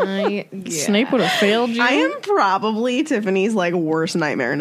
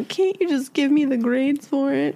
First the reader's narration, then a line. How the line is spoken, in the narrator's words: whined